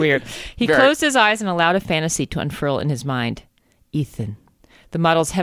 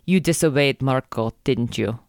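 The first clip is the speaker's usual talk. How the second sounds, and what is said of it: Bad put-on Brazilian accent. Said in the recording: “that's a pretty bad Brazilian accent”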